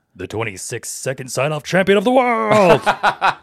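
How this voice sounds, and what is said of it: Epic announcer voice. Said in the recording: “You should read that like epic, like announcer voice”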